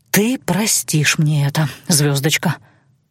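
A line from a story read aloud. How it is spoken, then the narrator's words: Muttered, life-creator. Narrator (Russian): пробормотал жизнетворец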